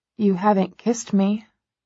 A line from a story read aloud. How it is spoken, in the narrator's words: I whisper